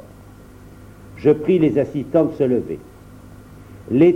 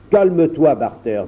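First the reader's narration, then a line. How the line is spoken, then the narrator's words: Plain. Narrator (French): dit Viola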